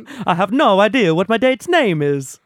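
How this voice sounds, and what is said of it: Put-on Italian accent. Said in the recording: “Italian, then. It's borderline. ... Not bad. ... it's offensive, I think.”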